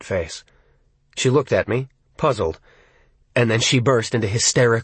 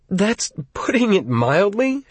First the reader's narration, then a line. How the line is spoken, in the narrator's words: she replied, still giggling and hiccuping